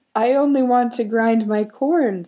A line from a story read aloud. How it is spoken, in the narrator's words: squeaked the villager